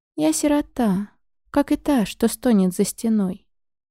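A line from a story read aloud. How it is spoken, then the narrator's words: Sad reply. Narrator (Russian): грустно ответила она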